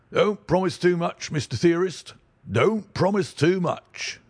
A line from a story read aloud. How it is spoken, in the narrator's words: snapped the detective